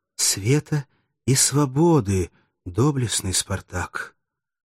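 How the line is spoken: Whispered. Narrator (Russian): Девушка прошептала

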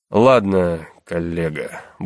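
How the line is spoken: Gruff mutter. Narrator (Russian): буркнул он

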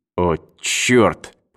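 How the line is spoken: Muttering. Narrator (Russian): пробормотал Эванс

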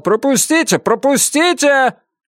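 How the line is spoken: Someone shouting. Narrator (Russian): Кто-то кричал

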